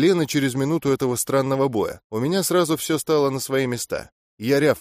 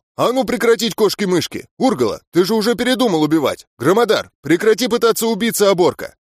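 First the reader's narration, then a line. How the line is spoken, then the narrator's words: Unexpectedly loud, deafening. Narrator (Russian): Получилось неожиданно громко, аж у самого уши заложило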